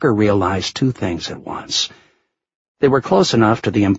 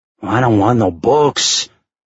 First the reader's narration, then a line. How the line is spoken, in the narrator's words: Juan growled